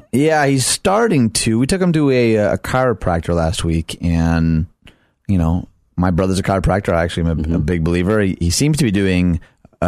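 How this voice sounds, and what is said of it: Tired, low-energy voice. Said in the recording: “Tired. Does my voice sound tired? ... You also sound defeated right now. ... My energy has been defeated.”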